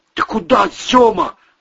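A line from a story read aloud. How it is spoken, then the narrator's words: Shout while running. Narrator (Russian): выкрикнул Вовка на ходу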